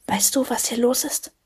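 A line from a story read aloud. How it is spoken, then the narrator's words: Soft delicate whisper. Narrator (German): flüsterte eine zarte Stimme zu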